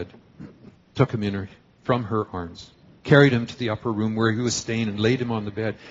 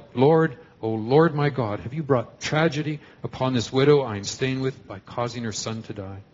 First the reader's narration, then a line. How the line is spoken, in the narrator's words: cried to the Lord